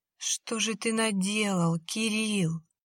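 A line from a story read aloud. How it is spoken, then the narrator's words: Weak voice. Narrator (Russian): произнесла слабым голосом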